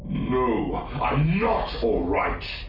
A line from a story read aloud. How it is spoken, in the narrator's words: Jixis snarled